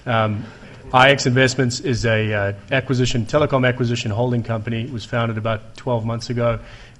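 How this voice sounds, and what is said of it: Noticeable unfamiliar accent. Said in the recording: “if you can't understand me, I'm the guy with the funny accent”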